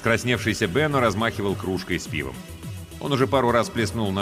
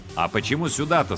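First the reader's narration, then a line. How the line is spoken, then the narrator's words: Plain. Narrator (Russian): спросил Алькад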